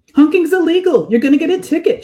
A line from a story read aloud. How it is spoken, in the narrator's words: shouts, grinning in spite of herself